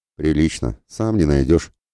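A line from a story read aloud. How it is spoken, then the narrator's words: Snort. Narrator (Russian): хмыкнул Благояр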